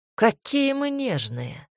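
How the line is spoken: Caustic drawl. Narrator (Russian): едко протянул император

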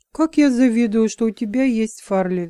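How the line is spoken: Sighing. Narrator (Russian): вздохнула

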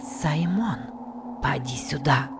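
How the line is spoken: Whisper. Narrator (Russian): прошептала Касси

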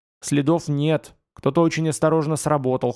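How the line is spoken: Snorting. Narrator (Russian): хмыкнул Елисей

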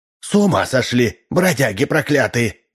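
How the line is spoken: Old woman hissing. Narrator (Russian): зашипела старуха

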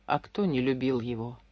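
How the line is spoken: Whisper. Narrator (Russian): прошептал Хинский

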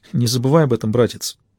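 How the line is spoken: Girl muttering. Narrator (Russian): пробормотала девочка

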